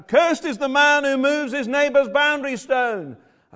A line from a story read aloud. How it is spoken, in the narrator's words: the priests shout out